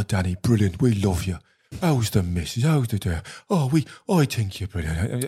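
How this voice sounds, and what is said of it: Soft Irish accent. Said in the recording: “soft Irish accent”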